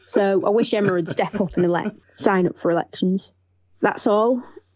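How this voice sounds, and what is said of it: Northwest English accent. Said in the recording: “I love ... accent. I'm sensing she's from the northwest of England”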